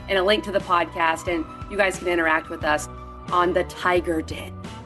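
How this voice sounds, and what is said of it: Strained, failing voice. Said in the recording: “My voice is dying. I don't know what's wrong with me.”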